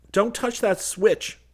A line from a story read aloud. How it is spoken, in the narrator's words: Seaton yelled